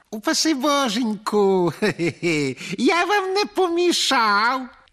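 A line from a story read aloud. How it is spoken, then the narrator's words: Ironic, sugary voice. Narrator (Ukrainian): запитав іронічно підсолодженим голосом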